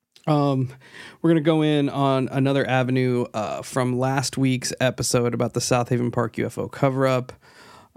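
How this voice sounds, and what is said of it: Sick, congested-sounding voice. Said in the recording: “I am battling some sort of head, chest, throat deal. So my voice sounds a little weird”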